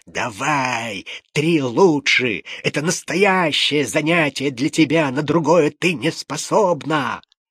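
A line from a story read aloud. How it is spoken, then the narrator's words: Irritated spiteful hiss. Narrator (Russian): раздраженный каким-нибудь пустяком, с перекошенным от злобы лицом, шипел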